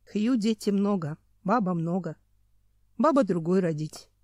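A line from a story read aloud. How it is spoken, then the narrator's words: Calm statement. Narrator (Russian): спокойно заявил неандерталец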